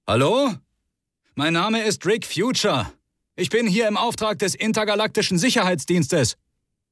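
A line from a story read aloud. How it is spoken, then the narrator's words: Calling into darkness. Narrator (German): rief in die Dunkelheit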